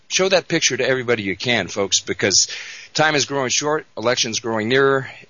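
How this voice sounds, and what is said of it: Slightly out of breath. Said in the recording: “the reason I might be a little out of breath, I've been running around crazy”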